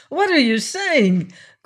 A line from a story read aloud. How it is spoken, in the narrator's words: cried Esteban